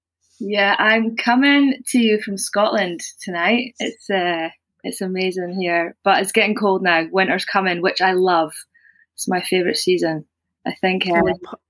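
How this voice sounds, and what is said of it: Scottish accent. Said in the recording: “how sexy that accent is ... So good ... the Scottish accent”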